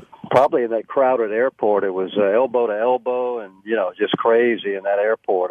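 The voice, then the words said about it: Hoarse, congested voice from cold. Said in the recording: “please forgive my voice. I'm getting over one of those horrible colds ... maybe I'm a bit more resonant than I was”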